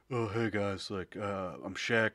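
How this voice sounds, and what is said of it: Deep-voiced imitation of another person. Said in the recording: “do an impression... He's got like such a deep voice”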